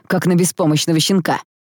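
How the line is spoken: Barked. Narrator (Russian): рявкнул он

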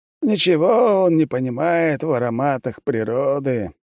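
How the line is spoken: Old man's contented deep sigh. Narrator (Russian): старик вздохнул полной грудью и прикрыл от удовольствия глаза

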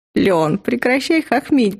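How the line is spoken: Moaning through laughter. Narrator (Russian): простонала я, корчась от смеха

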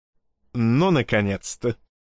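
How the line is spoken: Laughing. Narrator (Russian): рассмеялся Клоп

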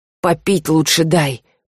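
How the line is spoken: Hoarse, slurred croak. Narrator (Russian): прохрипел белокосый, еле ворочая языком

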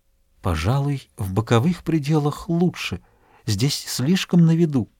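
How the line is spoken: Hushed mysterious whisper. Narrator (Russian): прошептала таинственным тоном, каким обычно говорят в церкви

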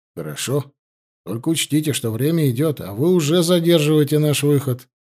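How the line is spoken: Gruff mutter. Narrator (Russian): буркнул Алексей

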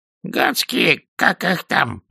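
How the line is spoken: Wheezed, hoarse. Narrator (Russian): прохрипел он

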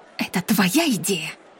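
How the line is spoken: Whisper. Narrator (Russian): шепнула Имаджен

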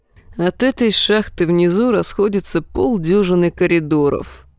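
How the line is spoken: Tired reply. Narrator (Russian): устало ответил ее брат-близнец

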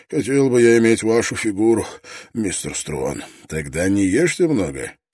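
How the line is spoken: Laughing. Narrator (Russian): Скиннер рассмеялся

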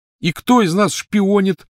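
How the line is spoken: Shouting. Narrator (Russian): закричал он

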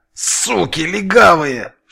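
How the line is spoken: Hiss through teeth. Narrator (Russian): шипел сквозь зубы Фикса

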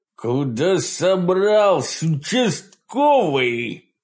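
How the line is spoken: Growling. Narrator (Russian): прорычал хозяин постоялого двора

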